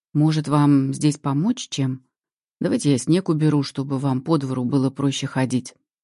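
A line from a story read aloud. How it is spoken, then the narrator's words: Even voice. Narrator (Russian): ровным голосом прерывает паузу Слава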